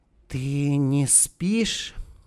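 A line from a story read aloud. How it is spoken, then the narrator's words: Barely audible question. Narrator (Russian): спросила женщина еле слышно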